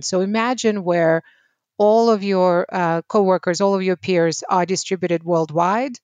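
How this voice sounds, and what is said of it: Non-native English accent. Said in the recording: “I don't know if you can tell, but I have an accent, so English is not my native language”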